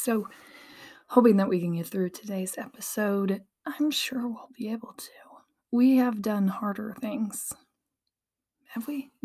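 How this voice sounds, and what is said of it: Strained, partly lost voice. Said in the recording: “losing my voice, have lost my voice, got it back. It definitely is better today, but obviously, we're not 100% fixed”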